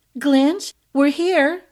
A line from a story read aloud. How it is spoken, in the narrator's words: Izalova called out